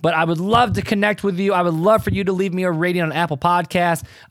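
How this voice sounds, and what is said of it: Voice slightly off, throat-affected. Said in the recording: “I had strep throat almost 2-3 weeks ago, and I'm still dealing with some scarring from that ... so my voice is still a little bit off ... I don't talk real great right now”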